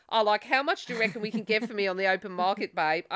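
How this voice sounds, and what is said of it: Put-on Australian accent. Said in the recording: “my Australian accent”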